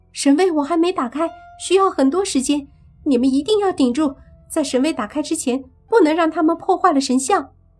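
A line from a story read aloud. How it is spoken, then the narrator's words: Loud speech. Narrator (Chinese): 轩轩大声地说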